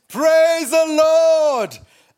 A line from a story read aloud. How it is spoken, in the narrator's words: She shouted again